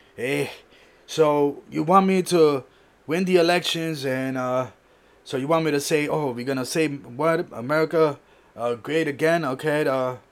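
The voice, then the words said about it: Imitates another person's voice. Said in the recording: “I'm doing my best of Trump impression here”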